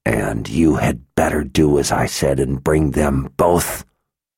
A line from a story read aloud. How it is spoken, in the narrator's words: Sister Eulacia growled